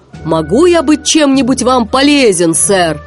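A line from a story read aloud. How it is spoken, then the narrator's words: Shouted. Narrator (Russian): Сми закричал капитану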